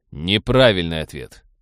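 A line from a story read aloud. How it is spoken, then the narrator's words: Cold. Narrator (Russian): холодно произнес Роджер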